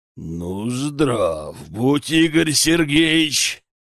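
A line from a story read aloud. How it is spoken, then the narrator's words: Hoarse growling bass. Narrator (Russian): прорычал хриплым басом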